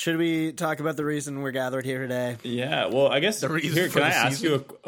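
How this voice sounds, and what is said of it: Usual voice. Nothing is said of it.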